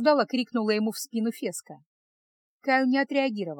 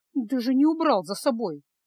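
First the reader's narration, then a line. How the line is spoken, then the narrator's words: Grumbled. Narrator (Russian): проворчала Фесса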